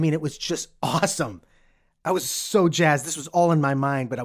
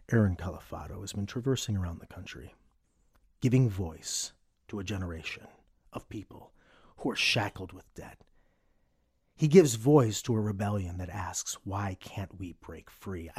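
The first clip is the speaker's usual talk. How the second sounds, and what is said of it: Mock NPR radio announcer voice. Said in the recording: “NPR voice comes in”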